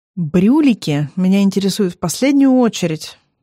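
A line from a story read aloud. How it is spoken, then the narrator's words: Dry reply. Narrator (Russian): отвечаю сухо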